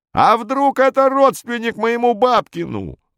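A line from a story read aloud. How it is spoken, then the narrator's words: Yelling. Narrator (Russian): вопил он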